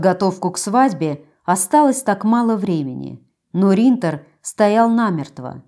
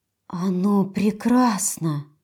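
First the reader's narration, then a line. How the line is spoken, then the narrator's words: Breathless. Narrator (Russian): выдохнула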